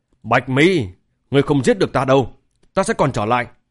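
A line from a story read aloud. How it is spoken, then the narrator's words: Angry speech. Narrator (Vietnamese): mặt người, giận dữ mở miệng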